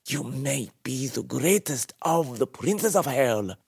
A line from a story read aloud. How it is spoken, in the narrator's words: Shinyan spat